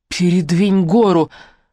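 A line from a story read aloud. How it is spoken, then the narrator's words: Hoarse croak. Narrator (Russian): прохрипела я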